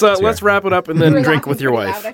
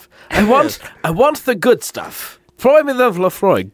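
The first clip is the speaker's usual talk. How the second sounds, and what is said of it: Put-on posh British accent. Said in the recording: “You have to say it with a British accent. Otherwise, it doesn't sound hoity-toity enough.”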